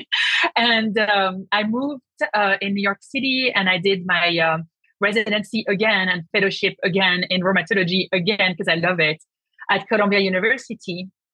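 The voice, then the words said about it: French accent. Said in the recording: “I did rheumatology in France. So that's why you have the accent. I cannot get rid of it.”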